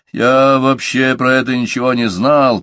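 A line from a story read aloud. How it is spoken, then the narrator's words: Grumbling. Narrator (Russian): пробурчал Викторсон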